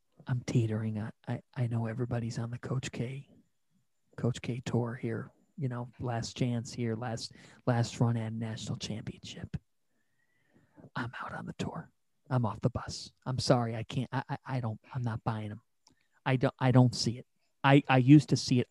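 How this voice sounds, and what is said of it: Speaking quietly, close to microphone. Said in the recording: “I'm gonna get real close to the microphone here because I'm kind of saying it quietly.”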